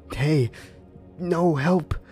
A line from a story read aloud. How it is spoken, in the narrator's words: I heard James scream then